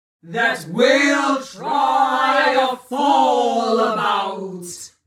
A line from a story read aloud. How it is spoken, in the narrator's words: roared the troll again